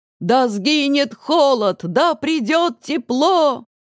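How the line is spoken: Men shouting, women joining. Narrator (Russian): кричали мужчины, а женщины подхватывали

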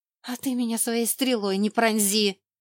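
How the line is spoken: Growled. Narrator (Russian): рыкнула я

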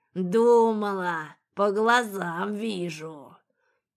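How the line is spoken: Hoarse laughing beast. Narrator (Russian): Зашелся хриплым смехом зверь

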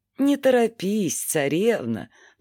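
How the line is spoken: Calm reply. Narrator (Russian): произнес мальчик-луч в ответ спокойным голосом

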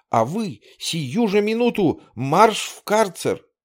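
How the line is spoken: Shouted. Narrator (Russian): он крикнул на Александрова

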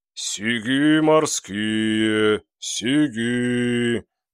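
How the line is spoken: Dull mournful bass cry. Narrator (Russian): глухим и унылым басом голосит рыбник

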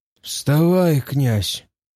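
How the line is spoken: Hoarse blacksmith. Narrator (Russian): хрипло сказал кузнец

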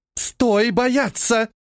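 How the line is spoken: Exclaimed. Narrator (Russian): воскликнула Аркаэлла

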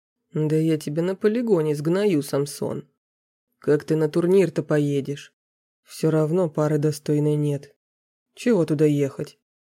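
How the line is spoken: Grumbling. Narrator (Russian): пробурчал тот

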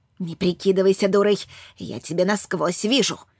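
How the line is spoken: Angry huffing. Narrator (Russian): Ирма злобно пыхтела

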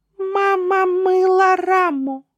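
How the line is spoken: Thin doll voice. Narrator (Russian): Кукла Катя умела тонким голосом говорить

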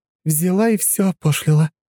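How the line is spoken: Sighing. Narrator (Russian): вздохнула Анна

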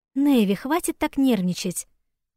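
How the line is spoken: Calm speech. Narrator (Russian): спокойно проговорила Айли

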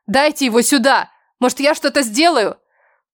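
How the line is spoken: Shouting. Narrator (Russian): Незнакомка в зеркале кричала

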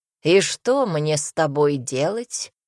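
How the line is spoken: Snorting. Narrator (Russian): хмыкнул маг

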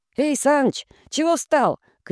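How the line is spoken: Shouted. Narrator (Russian): крикнул кто-то

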